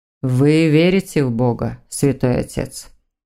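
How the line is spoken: Muffled and quiet. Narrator (Russian): Голос Александра зазвучал глухо и тихо

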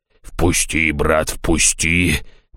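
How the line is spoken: Monster muttering. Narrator (Russian): бормотало чудовище

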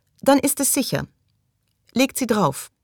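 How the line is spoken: Said, firm voice. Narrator (German): sagte Maggie mit fester Stimme

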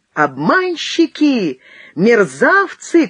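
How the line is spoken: Shout. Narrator (Russian): крикнула Шихмин

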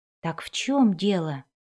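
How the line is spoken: Whispering. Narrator (Russian): прошептала Кэти Бри

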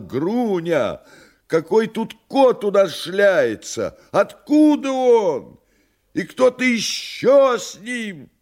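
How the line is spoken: Frightened shout. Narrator (Russian): Он испуганно закричал

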